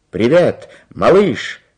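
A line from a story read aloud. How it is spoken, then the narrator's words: Shouting. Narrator (Russian): крикнул Карлсон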